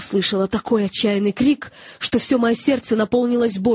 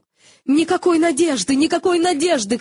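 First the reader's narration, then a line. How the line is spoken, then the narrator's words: Shouting. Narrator (Russian): кричал человек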